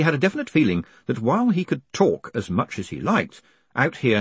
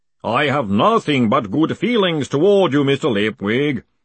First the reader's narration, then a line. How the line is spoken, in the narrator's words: boomed the voice cheerfully